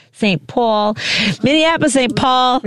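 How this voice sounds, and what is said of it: Odd put-on accent. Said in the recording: “Strange little accent put on that ... a weird little backspin on that”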